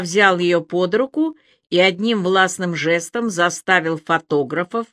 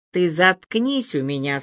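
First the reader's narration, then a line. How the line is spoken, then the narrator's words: Calm but menacing. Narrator (Russian): сказал Илья, спокойно, но не предвещающим ничего хорошего тоном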